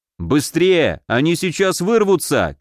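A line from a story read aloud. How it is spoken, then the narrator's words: Shout. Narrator (Russian): крикнул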